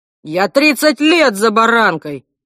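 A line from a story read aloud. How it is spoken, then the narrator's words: Bellowed. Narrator (Russian): гаркнул Альф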